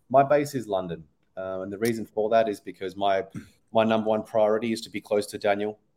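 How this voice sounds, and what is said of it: Australian accent. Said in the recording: “I'm originally Australian, if you haven't picked up from my accent already.”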